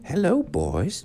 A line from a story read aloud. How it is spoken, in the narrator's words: she exclaimed